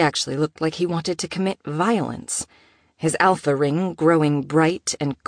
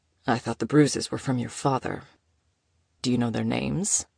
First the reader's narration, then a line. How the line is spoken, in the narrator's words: he asked quietly